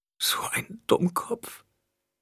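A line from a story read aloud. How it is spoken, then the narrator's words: Gasping, losing self-control. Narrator (German): keuchte Aaliyah, deren Selbstkontrolle nun sichtbar versagte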